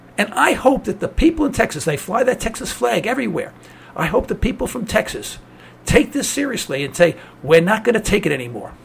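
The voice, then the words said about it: New York accent. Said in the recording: “I'm originally from New York, as you can tell from my accent”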